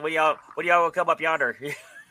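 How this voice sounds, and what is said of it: Exaggerated hillbilly accent. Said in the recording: “You can't sound like a hillbilly like this.”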